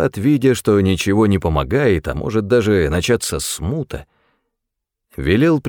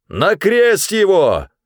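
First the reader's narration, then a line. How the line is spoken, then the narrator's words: Crowd shouting even louder. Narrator (Russian): еще громче закричали они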